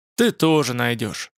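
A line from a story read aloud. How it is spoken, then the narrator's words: Gloomy. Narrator (Russian): сообщил мрачно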